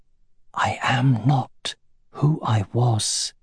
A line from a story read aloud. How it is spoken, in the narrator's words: he whispered